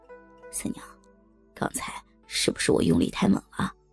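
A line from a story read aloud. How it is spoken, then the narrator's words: Soft question. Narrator (Chinese): 小声问道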